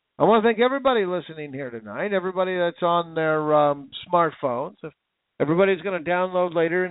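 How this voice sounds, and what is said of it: Strained, worn-out hoarse voice. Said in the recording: “My voice is gone. I can't speak. I can barely hear myself.”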